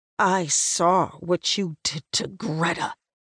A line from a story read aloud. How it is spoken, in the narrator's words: he hisses at me